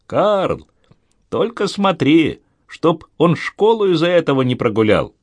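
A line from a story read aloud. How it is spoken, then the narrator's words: Mother calling out. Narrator (Russian): Мама крикнула им вслед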